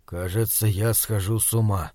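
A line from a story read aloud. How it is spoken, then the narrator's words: Barely audible. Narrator (Russian): еле слышно проговорил Бирюков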